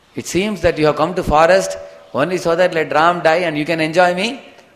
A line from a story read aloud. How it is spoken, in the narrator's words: started weeping and crying, and then she started shouting